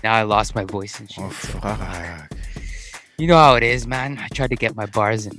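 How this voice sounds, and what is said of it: Hoarse, lost voice. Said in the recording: “I lost my voice ... I've been screaming”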